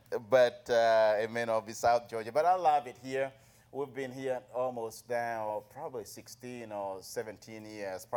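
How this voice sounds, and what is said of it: Southern African accent. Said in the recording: “that accent is not Southern. I say, it's Southern Africa. ... It's got some Southern accent”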